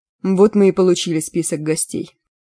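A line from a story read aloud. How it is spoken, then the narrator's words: Gloomy pronouncement. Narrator (Russian): довольно мрачно изрек Бежан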